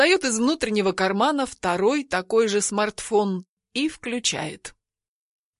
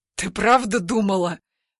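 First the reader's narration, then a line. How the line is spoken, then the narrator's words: Hoarse wheeze. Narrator (Russian): все еще хрипит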